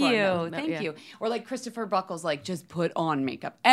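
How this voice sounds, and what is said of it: Usual voice. Nothing is said of it.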